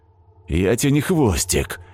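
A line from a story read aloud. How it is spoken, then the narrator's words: Suddenly angry reply. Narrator (Russian): неожиданно зло отозвался хвост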